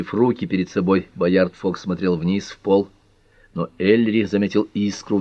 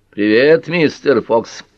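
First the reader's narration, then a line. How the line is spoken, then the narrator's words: Booming hum. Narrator (Russian): прогудел шеф Дейкин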